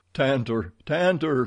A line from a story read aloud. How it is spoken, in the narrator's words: he cried